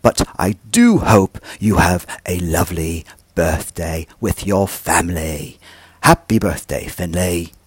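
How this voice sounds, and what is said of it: Poor attempt at posh British accent. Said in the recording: “my poor, poor attempt at a posh British accent ... my attempt at a British posh accent”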